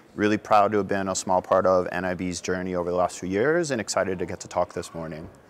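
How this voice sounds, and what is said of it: American accent. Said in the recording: “the person with the American accent works for the American company”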